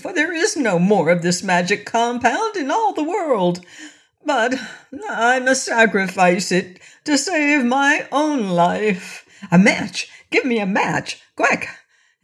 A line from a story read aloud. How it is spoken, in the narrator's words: panting for lack of breath